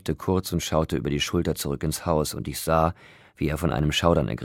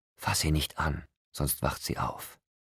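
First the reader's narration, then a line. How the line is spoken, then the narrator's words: Whispering. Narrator (German): flüsterte Rosalie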